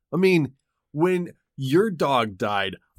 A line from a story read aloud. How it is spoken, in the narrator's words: I cried